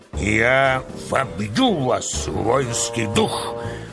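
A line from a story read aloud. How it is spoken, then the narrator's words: Hoarse commanding bass shout. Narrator (Russian): кричал полководец хриплым начальственным басом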